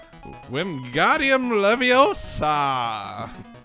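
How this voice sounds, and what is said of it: Put-on British accent. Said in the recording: “I've been working on my British accent”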